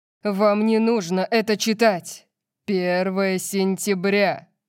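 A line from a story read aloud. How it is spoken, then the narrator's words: Loud. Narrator (Russian): громко сказал Орион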